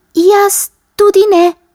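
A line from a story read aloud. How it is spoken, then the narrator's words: Mouse squeaking. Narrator (Slovenian): je zacvilila miška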